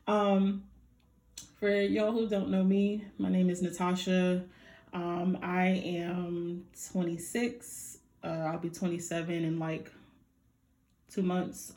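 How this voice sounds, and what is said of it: Slightly shaky voice. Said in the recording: “my voice is a little shaky”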